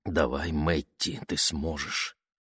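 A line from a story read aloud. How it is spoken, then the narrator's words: Whispered. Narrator (Russian): Алиеска шепнула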